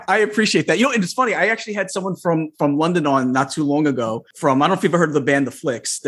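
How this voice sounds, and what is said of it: Thick New York Long Island accent. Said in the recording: “I have a pretty thick New York, Long Island, New York accent. ... You do. It's my favorite of all the American accents.”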